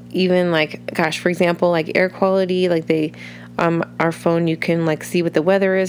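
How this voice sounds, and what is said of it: Scratchy, congested voice. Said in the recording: “hear it in my voice a little bit because uh, my voice is really scratchy, my sinuses are really funny, and um, I have a tickle in my throat ... weird nasally noises or coughs”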